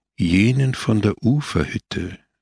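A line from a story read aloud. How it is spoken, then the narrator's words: Said calmly. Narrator (German): sagte er ruhig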